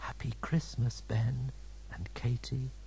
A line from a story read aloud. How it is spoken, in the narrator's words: whispered